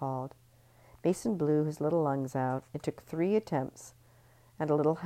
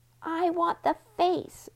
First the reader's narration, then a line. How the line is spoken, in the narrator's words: Mason shouted